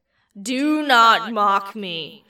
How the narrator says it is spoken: bellowed

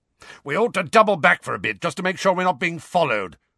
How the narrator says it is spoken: Moody shouted

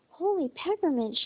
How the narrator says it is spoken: cried

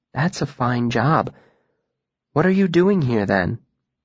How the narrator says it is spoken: Another murmur

